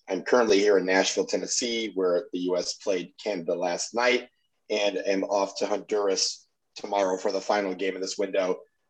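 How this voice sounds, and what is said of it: Tired-sounding voice. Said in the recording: “It's very tiring, as you could probably hear from my voice”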